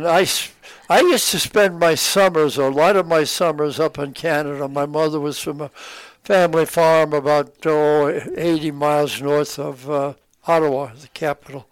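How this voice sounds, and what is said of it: Brooklyn accent. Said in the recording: “a very charming Brooklyn accent”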